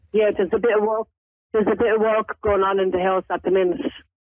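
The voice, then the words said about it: Strong accent, hard to understand. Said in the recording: “the accent is a little, over the whole thing here, it's interfering just a little bit”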